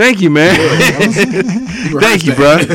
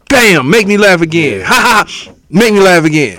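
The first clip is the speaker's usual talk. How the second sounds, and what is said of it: Charlie Murphy impression. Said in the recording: “your Charlie Murphy impression”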